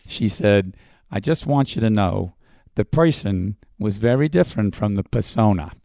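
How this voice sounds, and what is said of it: Imitated Queens New York accent. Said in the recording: “in her Queensian accent, which I can imitate a little bit”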